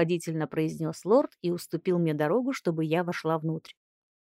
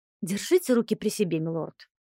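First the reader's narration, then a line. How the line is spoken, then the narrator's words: Request, not turning around. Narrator (Russian): не поворачиваясь, попросила я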